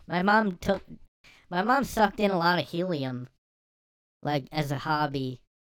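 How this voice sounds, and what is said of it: Put-on high-pitched voice. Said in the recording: “I just have this high voice now ... helium”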